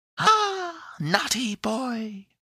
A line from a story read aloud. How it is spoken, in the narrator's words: cried the little voice within the box in a laughing tone